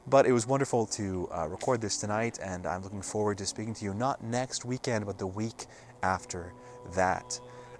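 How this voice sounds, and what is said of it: Slightly hoarse voice. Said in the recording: “My throat is getting a little hoarse from the cold air out here.”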